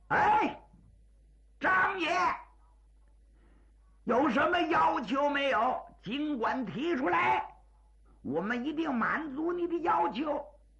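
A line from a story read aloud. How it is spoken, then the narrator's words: Merchant calling out. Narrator (Chinese): 开绸缎庄的东家冲张作霖就喊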